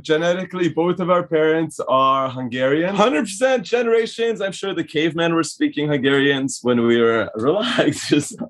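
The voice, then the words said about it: Hungarian-Canadian accent. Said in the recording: “You guys don't really have a Canadian accent. ... What kind of accent is this? ... It is a Hungarian/Canadian accent”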